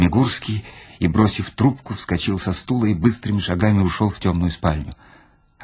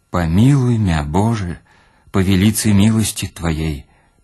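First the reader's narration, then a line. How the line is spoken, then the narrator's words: Loud steady prayer. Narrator (Russian): не стонал и громко читал молитву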